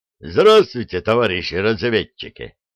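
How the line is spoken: Hearty bark. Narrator (Russian): бодро гаркнул самый высокий из гостей

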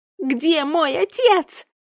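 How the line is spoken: Echoing full-throated scream. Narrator (Russian): закричала она во все горло, ее крик эхом отразился от стен

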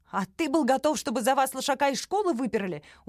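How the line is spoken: Hysterical cracking shout. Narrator (Russian): Уже переходя в истерику, срывающимся голосом прокричала Оля

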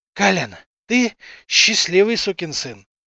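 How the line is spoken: Exhausted, hoarse breathing speech. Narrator (Russian): хрипло дыша произнес Гобла, обессиленно

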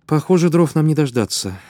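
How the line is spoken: Tired, smiling. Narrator (Russian): Лиза устало улыбнулась

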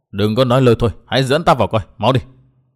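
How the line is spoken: Snapping irritably. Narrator (Vietnamese): người áo thụng xanh gắt

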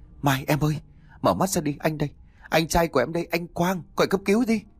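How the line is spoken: Trembling, shaken. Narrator (Vietnamese): Người thanh niên hai khóe môi run rẩy

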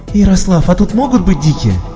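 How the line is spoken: Excited, hopeful question. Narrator (Russian): Взволнованно и, как мне показалось, надеждой спросила она

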